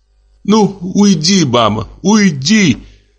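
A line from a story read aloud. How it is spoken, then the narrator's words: Sobbing. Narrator (Russian): зарыдала Надя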